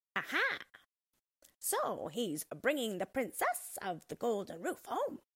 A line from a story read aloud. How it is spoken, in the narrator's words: The one croaked